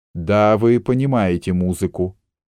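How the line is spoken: Gloomy speech. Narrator (Russian): сказал мрачно Аллан

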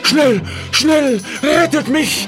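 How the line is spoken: Shouting to animals. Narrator (German): schrie den Tieren zu

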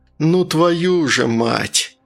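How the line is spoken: Groan. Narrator (Russian): простонал Артур

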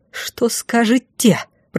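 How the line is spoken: Hissed in someone's face. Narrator (Russian): прошипела в лицо

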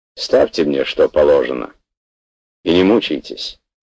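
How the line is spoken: Sharp, decisive student. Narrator (Russian): студент сказал это резким, решительным тоном

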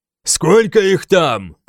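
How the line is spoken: Shouting. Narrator (Russian): крикнул я Финану

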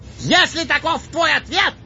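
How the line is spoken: Enraged shout. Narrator (Russian): прокричал взбешенный трубач

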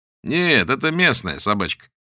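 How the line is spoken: Cheerful reply. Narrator (Russian): бодро откликнулся Боголюбов

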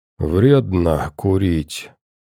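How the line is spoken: Barely intelligible mutter. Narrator (Russian): едва понятно пробормотал тот

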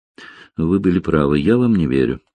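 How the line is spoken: Calm. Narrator (Russian): спокойно сказала Алина

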